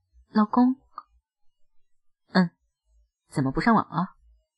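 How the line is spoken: Gentle, calm. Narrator (Chinese): 我尽量让语气温柔平和

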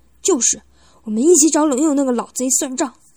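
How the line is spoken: Angry. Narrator (Chinese): 布森愤怒的说道

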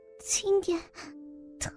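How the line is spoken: Weak, pained, bitter smile. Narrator (Chinese): 疼痛使得她无力地对张离惨笑说道

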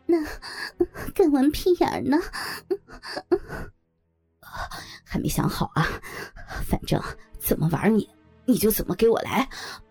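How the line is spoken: Man laughing. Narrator (Chinese): 徐老板一笑说

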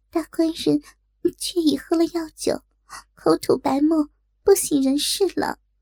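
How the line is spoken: Breathless, trembling. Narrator (Chinese): 锦儿这才喘着娇气，颤抖说道

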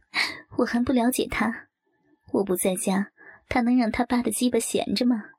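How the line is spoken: Laughing. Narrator (Chinese): 冷淑芬一见，笑道

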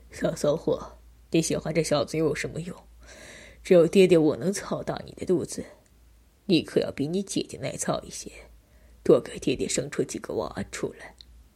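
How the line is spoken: Low voice. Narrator (Chinese): 低声说道

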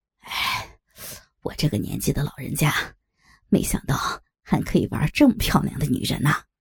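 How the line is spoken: Sighing. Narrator (Chinese): 黄渤叹道

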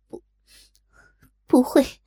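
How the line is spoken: Weak, almost sobbing. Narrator (Chinese): 黄蓉柔弱的声音几乎啜泣

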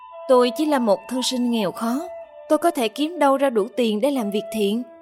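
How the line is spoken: Sighing. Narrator (Vietnamese): Trương Duy Ngạn thở dài

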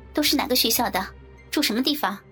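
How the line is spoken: Stern, sharp question. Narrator (Chinese): 战琴厉声问

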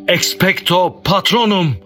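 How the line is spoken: Cried out loudly. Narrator (Turkish): diye haykırdı

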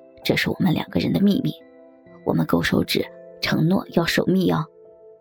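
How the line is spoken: Gentle soft voice. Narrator (Chinese): 文文点了点头，柔声道

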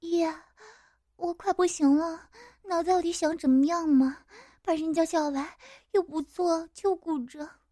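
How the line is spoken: Breathless, coquettish complaint. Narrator (Chinese): 乐喘着气，对我娇嗔

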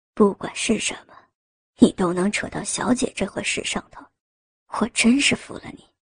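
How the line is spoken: Fond, affectionate teasing. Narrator (Chinese): 陈辅林温柔的用宠溺的语气取笑道

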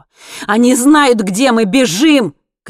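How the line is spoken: Shouting. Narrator (Russian): крикнул он

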